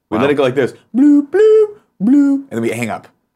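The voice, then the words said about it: Imitates Skype call sounds. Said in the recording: “good Skype impression... That was really good.”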